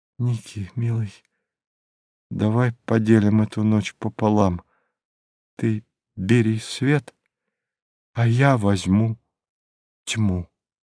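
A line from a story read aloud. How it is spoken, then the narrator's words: Whispered. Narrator (Russian): прошептав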